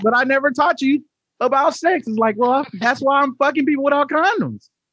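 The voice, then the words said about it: Put-on Southern American accent. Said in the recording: “you went from a Southern accent to a Southern accent to show stupidity”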